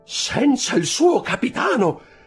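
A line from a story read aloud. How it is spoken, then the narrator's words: Joyful exclamation. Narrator (Italian): esclamò Dantès con occhi sfavillanti di gioia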